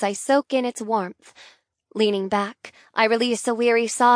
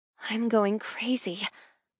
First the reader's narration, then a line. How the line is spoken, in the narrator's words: I mumble to myself